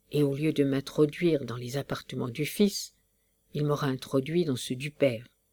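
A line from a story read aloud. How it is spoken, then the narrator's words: Murmured. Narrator (French): murmura monsieur de la Graverie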